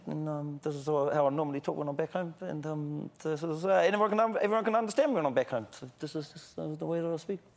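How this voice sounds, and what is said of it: Broad, mumbled New Zealand accent. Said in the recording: “Can you slip into unintelligible Kiwi? ... I can talk into my normal accent ... it's just mumbling ... The New Zealand accent is just mumbling, but it's beautiful mumbling”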